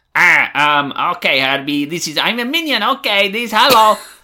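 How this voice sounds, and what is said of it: Minion character voice. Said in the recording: “I have to just say things in an accent ... the minion version of that ... So you're like a tiny Groot.”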